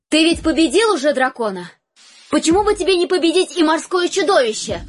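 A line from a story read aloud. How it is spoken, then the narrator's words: Loud question. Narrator (Russian): громко спросила королева у своего мужа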